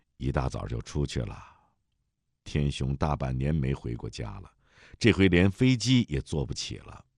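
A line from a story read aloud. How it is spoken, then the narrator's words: Cold. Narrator (Chinese): 苏元冷冷地说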